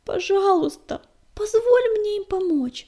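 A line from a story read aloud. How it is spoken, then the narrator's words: Pleading. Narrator (Russian): взмолилась Пепелюшка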